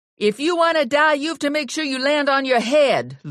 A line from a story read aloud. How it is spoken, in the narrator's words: Lula yelled up to Ginny